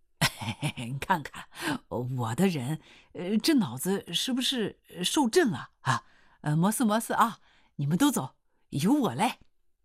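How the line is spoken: Laughing voice. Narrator (Chinese): 刘洪斌刺啦一笑说

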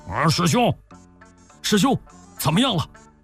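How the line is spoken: Shouting. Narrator (Chinese): 就喊道

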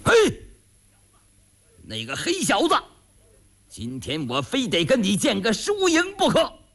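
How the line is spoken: Shout from behind. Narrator (Chinese): 后边有人喊

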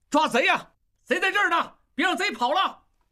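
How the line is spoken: Loud shouting. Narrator (Chinese): 王宗宇呐喊着，大声嚷嚷

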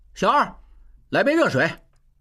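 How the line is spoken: Calling out. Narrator (Chinese): 口中叫着

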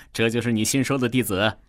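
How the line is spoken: Smiling, amused. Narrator (Chinese): 大师身边的中年人笑着说道

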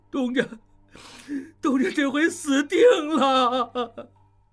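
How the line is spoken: Crying. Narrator (Chinese): 高瑞哭道

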